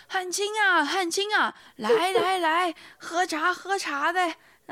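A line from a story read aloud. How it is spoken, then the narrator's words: Calling out. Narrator (Chinese): 突然听到背后有人喊他说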